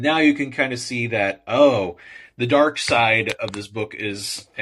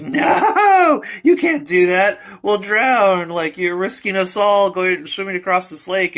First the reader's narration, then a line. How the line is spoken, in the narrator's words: all the animals scream bloody murder